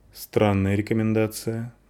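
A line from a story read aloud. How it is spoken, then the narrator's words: Grim, wry tone. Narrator (Russian): мрачно улыбнулась женщина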